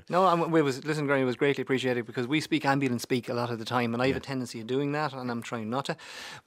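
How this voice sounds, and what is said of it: Irish accent from County Meath. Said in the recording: “your accent... I'm placed in Trim, County Meath.”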